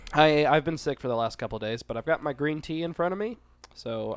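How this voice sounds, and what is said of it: Stuffy, congested voice. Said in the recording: “you sound a little stuffy ... My head's all stuffed up.”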